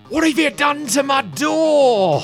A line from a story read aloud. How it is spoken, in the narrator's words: the old man who kind of like can barely hear you over this roar of green fire screams